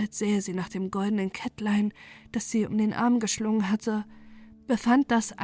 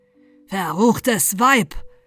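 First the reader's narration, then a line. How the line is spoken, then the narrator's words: Thundering, terrible voice. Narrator (German): donnerte mit furchtbarer Stimme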